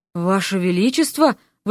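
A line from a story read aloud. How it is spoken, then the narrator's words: Breathed out. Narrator (Russian): выдохнул Миша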